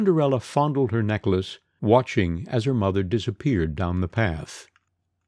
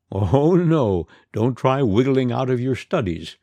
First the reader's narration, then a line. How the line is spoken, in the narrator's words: the stepmother laughed